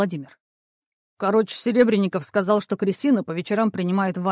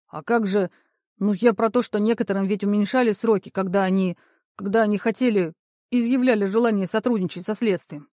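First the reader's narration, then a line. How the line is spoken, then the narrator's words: Stammering. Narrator (Russian): снова запинаясь, проговорил Максим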